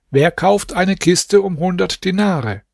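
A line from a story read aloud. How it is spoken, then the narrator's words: Calling out. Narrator (German): rief aus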